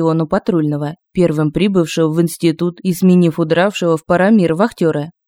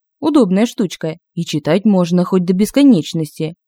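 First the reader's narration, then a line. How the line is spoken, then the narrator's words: Plain. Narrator (Russian): патрульный ответил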